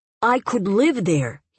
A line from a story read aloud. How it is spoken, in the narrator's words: said urgently, bending over her